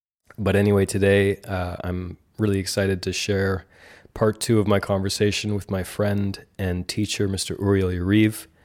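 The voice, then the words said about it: Rough, croaky sick voice. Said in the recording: “I'm sick. ... I sound a bit like a some kind of chain-smoking frog. ... My voice is not as perhaps not as smooth as you might be accustomed to”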